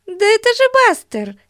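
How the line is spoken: Exclamation. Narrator (Russian): воскликнула Бетси

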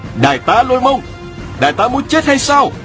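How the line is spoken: Exclaiming. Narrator (Vietnamese): Bị đắc kêu lên

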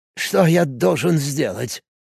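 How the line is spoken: Strained, forced out. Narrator (Russian): выдавил из себя, мэр

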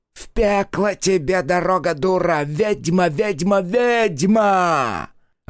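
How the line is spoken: Shrill cackling shouts from oven. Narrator (Russian): из утробы раскаленной печи продолжали кричать с визгливым хохотом

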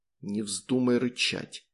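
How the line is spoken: Soundless whisper. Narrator (Russian): бесшумно прошептал

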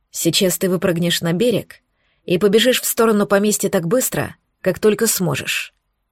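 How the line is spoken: Said while rowing. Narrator (Russian): Он, не переставая грести, сказал

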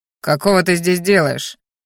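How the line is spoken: Growling, sniffing loudly. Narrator (Russian): рыкнул боевик, шумно втягивая носом воздух

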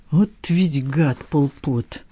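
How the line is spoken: Sigh. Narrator (Russian): вздохнул Порфирич

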